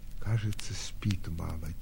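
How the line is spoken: Quiet. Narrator (Russian): тихо отвечала Соня

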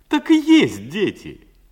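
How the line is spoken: Happy laughter. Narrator (Russian): счастливо засмеялся Васька

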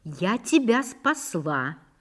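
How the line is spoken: Thoughtful, sniffling. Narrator (Russian): сказала она и задумчиво шмыгнула носом

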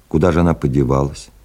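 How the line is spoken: Calm question. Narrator (Russian): спокойным голосом спросил Владимир Афанасьевич

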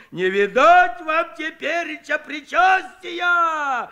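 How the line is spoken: Mock-horrified shout. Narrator (Russian): В притворном ужасе закричал Куженков

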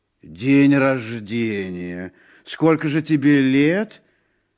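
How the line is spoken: Uncertain. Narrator (Russian): Муни неуверенно ответил

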